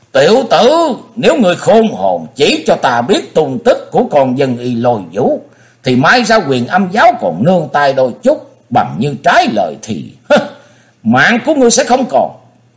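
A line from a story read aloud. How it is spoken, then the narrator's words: Tiger-like roar. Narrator (Vietnamese): Nhị đầu thái tử cất tiếng hầu như hổ gầm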